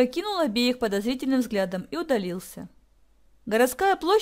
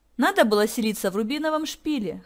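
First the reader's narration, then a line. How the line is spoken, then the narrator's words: Snorting. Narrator (Russian): хмыкнул Ник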